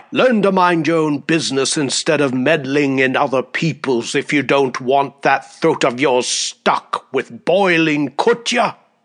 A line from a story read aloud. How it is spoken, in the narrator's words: he thundered in reply